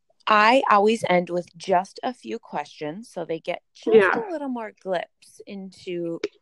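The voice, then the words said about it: Strong Minnesotan accent. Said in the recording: “my sheer Minnesotan accent coming out in full force”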